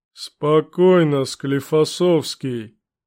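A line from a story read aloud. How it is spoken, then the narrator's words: Booming through armor speakers. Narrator (Russian): Прогудела двухметровая громада боевого доспеха через внешние динамики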